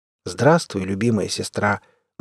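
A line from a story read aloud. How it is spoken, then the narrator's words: Sad smiling. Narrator (Russian): грустно улыбнулся Северный Ветер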